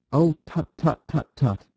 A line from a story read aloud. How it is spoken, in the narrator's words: he cried